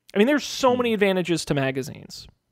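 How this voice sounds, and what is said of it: Sarcastic tone. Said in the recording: “Can you tell I'm being sarcastic? ... I'm being sarcastic ... you're so good at being sarcastic”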